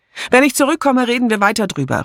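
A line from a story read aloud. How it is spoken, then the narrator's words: Called out. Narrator (German): rief sie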